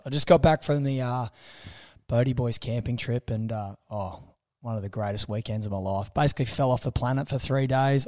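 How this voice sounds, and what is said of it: Rough, damaged voice. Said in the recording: “My voice is a cross between... It's almost like Darren Lockyer got together with Gary Larson... my voice is atrocious”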